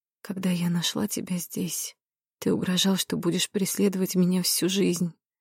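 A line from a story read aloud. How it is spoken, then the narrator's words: Whisper. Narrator (Russian): прошептала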